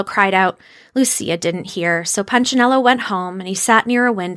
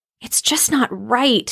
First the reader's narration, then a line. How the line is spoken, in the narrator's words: he muttered to himself